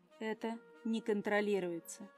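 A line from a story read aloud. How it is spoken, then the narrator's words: Calm reply. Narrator (Russian): спокойно отозвался Тайфун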